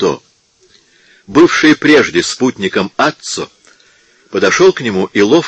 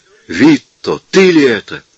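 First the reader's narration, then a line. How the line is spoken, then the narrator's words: Surprised exclamation. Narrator (Russian): с удивлением воскликнул он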